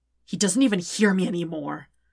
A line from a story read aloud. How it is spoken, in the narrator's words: Zuko says harshly